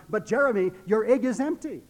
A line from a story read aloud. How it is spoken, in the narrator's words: Doris, at that point, was so flustered, she simply blurted out